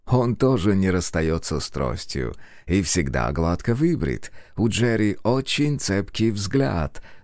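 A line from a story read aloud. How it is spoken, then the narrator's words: Said with a chuckle. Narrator (Russian): сказал мистер Майерс и хохотнул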